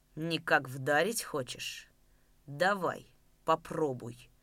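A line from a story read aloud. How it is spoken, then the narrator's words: Quiet and menacing. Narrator (Russian): Угрожающе и тихо проговорил он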